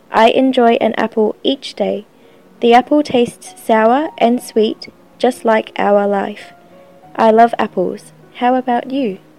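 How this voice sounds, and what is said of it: Australian / New Zealand English accent. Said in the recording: “she speaks the perfect accent. When she speaks English, it's the perfect accent of Australasia.”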